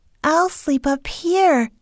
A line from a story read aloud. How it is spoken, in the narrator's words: said Heidi happily